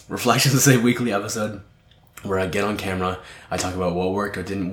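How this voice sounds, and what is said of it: Hoarse, strained voice. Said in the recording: “my voice is also fucked because I've been screaming all weekend”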